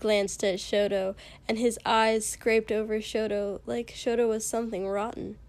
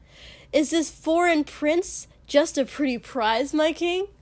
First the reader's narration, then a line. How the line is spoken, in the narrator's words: he said very loudly